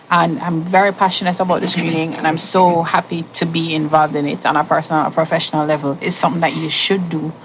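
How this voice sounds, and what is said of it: Jamaican accent. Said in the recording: “Jamaica. ... I could hear the accent.”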